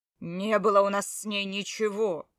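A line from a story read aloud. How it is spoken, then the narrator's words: Growled. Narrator (Russian): прорычал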